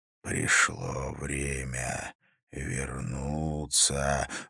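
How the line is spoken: Hoarse whisper. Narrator (Russian): звучал хриплый шепот

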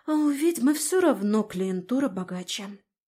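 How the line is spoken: Sigh. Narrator (Russian): вздохнула Галя

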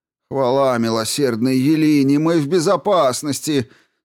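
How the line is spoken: Relieved sigh. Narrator (Russian): С облегчением вздохнул один из прохожих

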